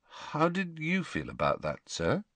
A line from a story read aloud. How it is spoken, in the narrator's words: asked Harry hesitantly